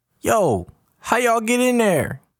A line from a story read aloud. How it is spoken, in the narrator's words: Jabri yells out to them